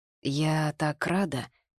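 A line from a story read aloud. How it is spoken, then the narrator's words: Mumbled. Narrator (Russian): пробормотала я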